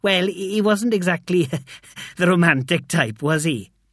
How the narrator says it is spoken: He laughed

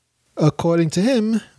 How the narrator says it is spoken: the young Asadi man paused nervously

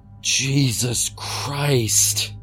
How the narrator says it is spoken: Clark gasped

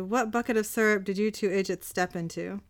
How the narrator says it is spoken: Dean chuckles

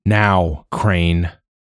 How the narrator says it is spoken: Joa growled

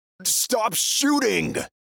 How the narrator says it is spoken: He yells into the mouthpiece

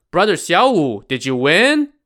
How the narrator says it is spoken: Wu Yong shouted

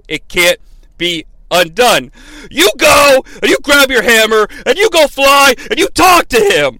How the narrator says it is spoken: he yells at Thor

